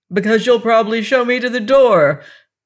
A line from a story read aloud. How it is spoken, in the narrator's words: I cried bitterly